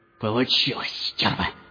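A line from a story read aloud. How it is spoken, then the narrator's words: Hoarse whisper. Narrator (Russian): хрипло прошептал Рубель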